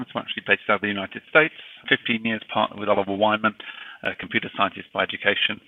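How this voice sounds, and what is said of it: British accent. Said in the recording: “despite my British accent”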